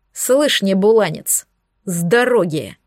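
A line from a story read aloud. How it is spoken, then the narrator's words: Growled. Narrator (Russian): прорычал Бирюк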